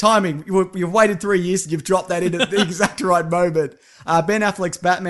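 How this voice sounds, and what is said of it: Usual voice. Nothing is said of it.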